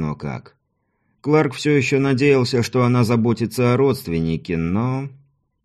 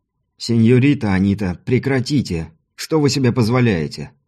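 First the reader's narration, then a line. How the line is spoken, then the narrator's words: Stern rebuke. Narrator (Russian): Строго одернул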